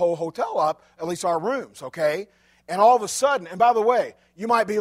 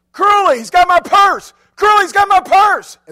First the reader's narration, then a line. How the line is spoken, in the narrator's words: screamed